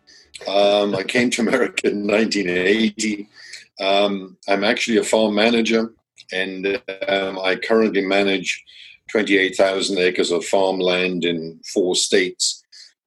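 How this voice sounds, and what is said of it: Foreign, non-local accent. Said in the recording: “Obviously, as you can tell by the accent, I'm not local.”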